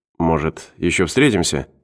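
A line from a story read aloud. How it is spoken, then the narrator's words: Muttering. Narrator (Russian): пробормотал Мортон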